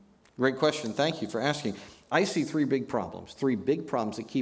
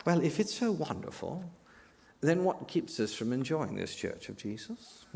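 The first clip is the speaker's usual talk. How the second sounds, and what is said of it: Imitated British professor voice. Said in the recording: “in your other British professor imitation”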